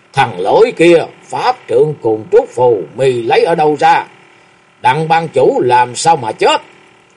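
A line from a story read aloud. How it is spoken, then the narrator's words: Fierce loud bark. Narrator (Vietnamese): Lạc Thiên Vân sắc mặt xám xanh, nạt lớn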